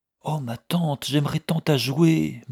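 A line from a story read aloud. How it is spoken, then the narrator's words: Murmured. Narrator (French): murmura Sophie Martin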